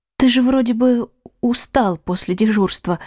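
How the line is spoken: Hesitant, breathy. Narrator (Russian): выдохнула она, судорожно цепляясь за собственную нерешительность

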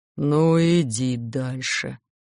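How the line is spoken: Gloomy mumble. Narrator (Russian): буркнул он тоскливо

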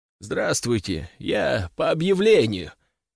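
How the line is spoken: Hoarse over phone. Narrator (Russian): прохрипел он в трубку

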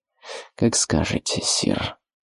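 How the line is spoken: Through gritted teeth. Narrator (Russian): выдавил сквозь зубы Гильдард

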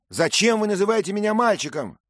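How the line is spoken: Shouted. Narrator (Russian): крикнул Дик

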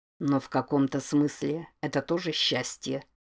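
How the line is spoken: Muttered. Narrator (Russian): пробормотал Дэниэльс

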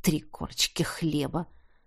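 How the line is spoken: Mumbled. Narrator (Russian): пробормотал

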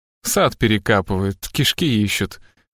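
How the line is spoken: Low voice. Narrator (Russian): вполголоса сказал Страйк

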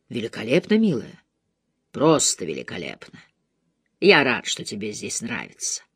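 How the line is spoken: Low voice. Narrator (Russian): Низким голосом он произнес

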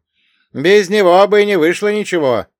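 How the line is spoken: Shouted. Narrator (Russian): крикнул Василий

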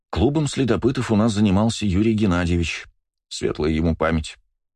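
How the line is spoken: Sighing. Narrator (Russian): вздохнула Наталья Ильинична

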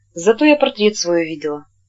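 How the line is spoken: Quiet. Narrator (Russian): Она сказала тихо

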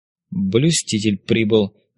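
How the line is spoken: Scoffing grunt. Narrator (Russian): хмыкнул Леонид

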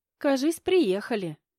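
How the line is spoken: Giggling friend. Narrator (Russian): хихикнула подруга

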